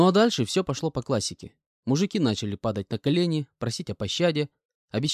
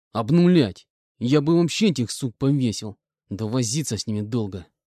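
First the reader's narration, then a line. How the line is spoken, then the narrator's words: Angry. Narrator (Russian): злобно добавил он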